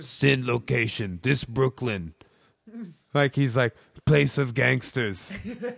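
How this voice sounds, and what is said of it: Put-on Russian accent. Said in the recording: “can you read this status in anything other than a Russian accent? And I was like, no, I can't.”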